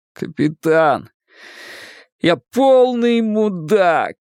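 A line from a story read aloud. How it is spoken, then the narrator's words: Groan. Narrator (Russian): простонал он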